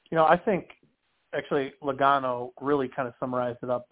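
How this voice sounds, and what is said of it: Nasal, congested voice. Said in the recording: “allergies and all that stuff ... I feel like I sound so nasally this week”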